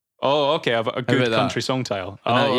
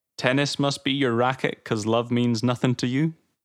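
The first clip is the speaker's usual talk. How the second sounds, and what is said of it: Slips into a put-on accent. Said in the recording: “That accent creeped in again there.”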